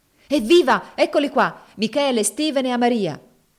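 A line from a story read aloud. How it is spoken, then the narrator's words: Cheerful shout. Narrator (Italian): gridò allegramente Finea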